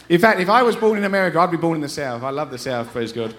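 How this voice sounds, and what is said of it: English accent. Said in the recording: “we're from England. We moved here 13 years ago. We haven't lost our accents.”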